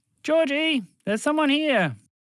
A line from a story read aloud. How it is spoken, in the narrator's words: One of the mice leaned over the hole and shouted into it